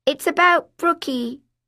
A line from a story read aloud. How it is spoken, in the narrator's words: I shouted